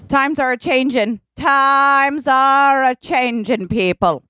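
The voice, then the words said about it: Put-on accent. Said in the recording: “What is that accent? It's amazing.”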